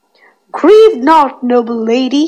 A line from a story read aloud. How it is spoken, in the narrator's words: exclaimed